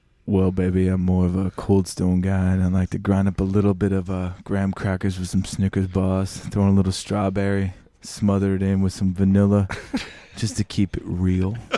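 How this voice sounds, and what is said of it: Put-on sexy seductive voice. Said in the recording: “Tell me your favorite ice cream in your sexy voice.”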